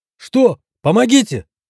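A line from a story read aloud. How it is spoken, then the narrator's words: Sudden cry. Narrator (Russian): успел выкрикнуть врач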